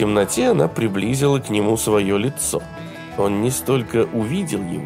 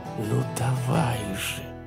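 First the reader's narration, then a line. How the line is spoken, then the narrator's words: Whispered. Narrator (Russian): прошептала она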